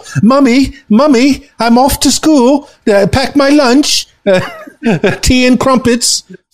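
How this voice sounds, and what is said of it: Put-on English schoolchild accent. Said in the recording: “I tried to do an English accent. I'm sure it was horrible. ... I thought you sounded very cute when you did that.”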